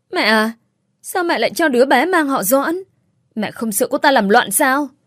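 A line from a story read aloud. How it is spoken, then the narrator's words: Snapping. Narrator (Vietnamese): Trang gắt lên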